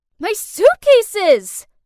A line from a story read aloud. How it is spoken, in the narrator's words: I yelled